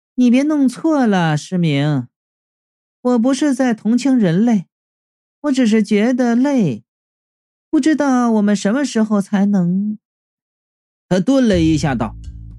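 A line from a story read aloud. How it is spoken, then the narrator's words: Wistful sigh. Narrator (Chinese): 三娘悠悠的叹了一声，然后又对不存在的那个人说道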